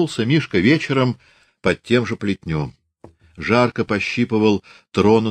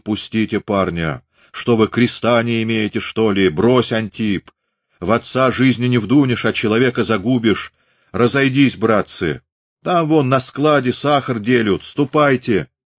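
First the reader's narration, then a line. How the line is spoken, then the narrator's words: Hoarse reasoning bass. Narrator (Russian): Чей-то урезонивающий голос простудно басил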